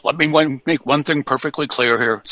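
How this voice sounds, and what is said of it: Richard Nixon impression. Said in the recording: “my Richard Nixon impression”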